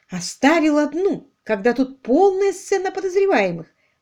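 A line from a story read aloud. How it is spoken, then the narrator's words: Indignant thought. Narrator (Russian): возмущенно подумала Дейзи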